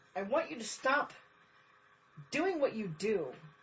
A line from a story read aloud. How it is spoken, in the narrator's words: Rodney blurts out, lost